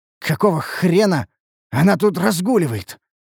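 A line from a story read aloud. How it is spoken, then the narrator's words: Choked, furious, gurgling. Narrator (Russian): выдавил я из себя, давясь от злобы и булькающей во рту крови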